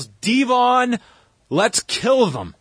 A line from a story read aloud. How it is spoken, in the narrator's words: Bubba yells